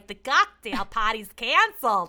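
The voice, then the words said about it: Imperfect put-on Boston accent. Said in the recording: “full Goodwill Hunting ... I have to practice my Boston accent”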